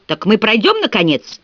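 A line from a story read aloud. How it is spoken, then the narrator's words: Shouted demand. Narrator (Russian): в последний раз выкрикнула свое требование Милли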